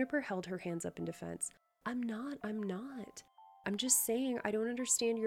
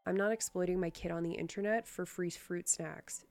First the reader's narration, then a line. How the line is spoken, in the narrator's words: Gia said flatly